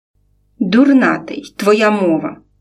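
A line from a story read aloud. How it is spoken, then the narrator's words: Grumbling. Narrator (Ukrainian): буркнула Галя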